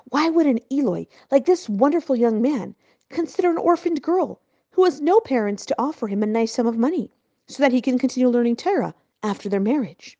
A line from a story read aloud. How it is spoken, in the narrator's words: continued in a worried tone